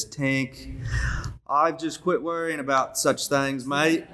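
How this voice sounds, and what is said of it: Put-on Australian accent. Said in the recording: “in her Australian accent”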